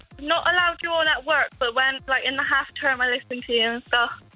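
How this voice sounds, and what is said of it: Regional accent. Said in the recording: “I love your accent”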